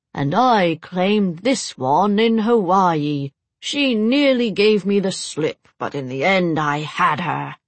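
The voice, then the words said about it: Deep melodramatic English accent. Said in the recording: “She affected a deep, melodramatic English accent.”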